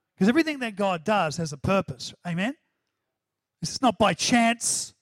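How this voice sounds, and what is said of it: New Zealand accent. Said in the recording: “did that sound New Zealand? ... My New Zealand accent”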